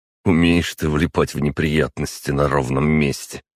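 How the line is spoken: Wry snort. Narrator (Russian): хмыкнул Костя

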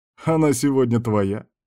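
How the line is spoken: Chuckling. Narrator (Russian): хохотнул Дональд

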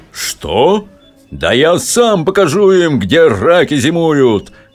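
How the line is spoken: Menacing shout. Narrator (Russian): грозно закричал командующий армией

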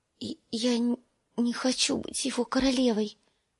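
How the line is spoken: Thin little voice. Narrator (Russian): проговорила тоненьким голоском

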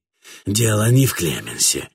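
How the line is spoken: Grumbling to himself. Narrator (Russian): ворчал про себя Катфаэль

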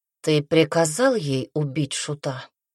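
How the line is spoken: Plain. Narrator (Russian): спросил второй голос

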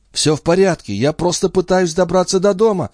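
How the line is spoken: Frightened babble. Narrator (Russian): испуганно пролепетал Пин

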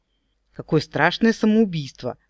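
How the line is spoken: Mock exclamation with smirk. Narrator (Russian): воскликнула я, ухмыльнулась

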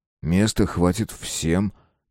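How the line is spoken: Quiet. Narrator (Russian): тихо произнес я

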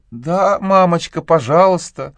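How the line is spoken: Timid. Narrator (Russian): робко промолвила Люси

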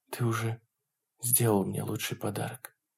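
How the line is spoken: Soft whisper. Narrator (Russian): прошептала она Стиву и себе

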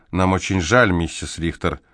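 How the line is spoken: Mumbling. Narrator (Russian): Амелия перевела взгляд на Селитта, мямлившего

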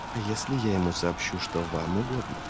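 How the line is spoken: Whisper. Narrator (Russian): Прошептала Витария

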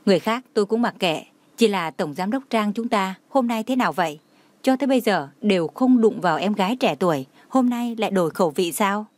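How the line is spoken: Light laugh. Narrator (Vietnamese): Lãnh Mạc Hàn khẽ cười, nói

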